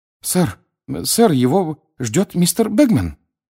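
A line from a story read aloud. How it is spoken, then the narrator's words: Frightened speech. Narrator (Russian): испуганно проговорил он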